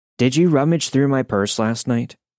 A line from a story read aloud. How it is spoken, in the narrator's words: she asked calmly at first